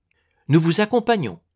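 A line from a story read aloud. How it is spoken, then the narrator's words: Exclaimed. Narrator (French): s'écria Raphaël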